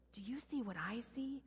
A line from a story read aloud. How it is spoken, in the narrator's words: whispered